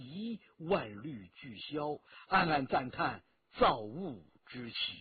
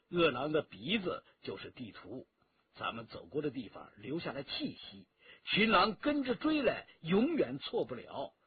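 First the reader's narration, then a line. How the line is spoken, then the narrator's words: Laughing. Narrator (Chinese): 陈家洛笑了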